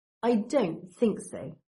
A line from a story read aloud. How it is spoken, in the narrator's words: Draco sneers, with that old familiar drawl